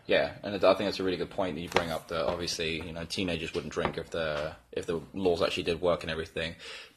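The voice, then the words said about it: Fake English accent. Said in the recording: “I come from, obviously, England ... This is a fake accent. I'm from Texas.”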